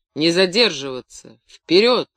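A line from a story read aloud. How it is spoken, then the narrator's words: Wheezing from behind. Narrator (Russian): сипел за спиной Корецкий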